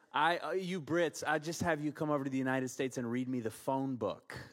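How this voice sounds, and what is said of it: American accent. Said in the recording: “Please forgive my trash accent.”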